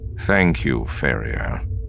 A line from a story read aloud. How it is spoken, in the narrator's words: Thrawn said dryly